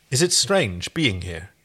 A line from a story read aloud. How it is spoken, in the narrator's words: she asked